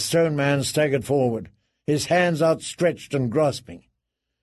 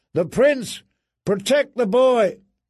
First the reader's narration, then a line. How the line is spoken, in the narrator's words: someone shouted, far away